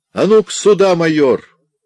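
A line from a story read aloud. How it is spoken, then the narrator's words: Elderly man's fierce shout. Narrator (Russian): пожилой офицер также свирепо крикнул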